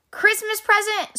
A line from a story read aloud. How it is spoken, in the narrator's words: snorted Grumpy Badger